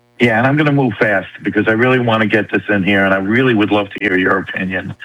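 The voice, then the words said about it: New York accent. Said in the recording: “You don't sound like you're from Texas, dude. You sound like you're from New York.”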